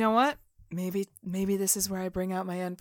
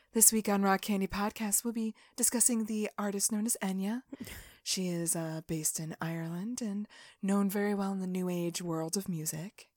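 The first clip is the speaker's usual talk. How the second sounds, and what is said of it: Calm public-radio announcer voice. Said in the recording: “NPR voice”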